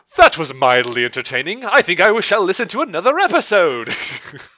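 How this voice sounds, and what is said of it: Put-on British accent. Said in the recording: “do a voice ... I just went British”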